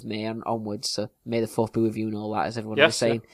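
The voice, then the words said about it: Strong regional accent, less clearly spoken. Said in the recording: “our strange accents, particularly mine. Fisher's a bit more clearly spoken than I am”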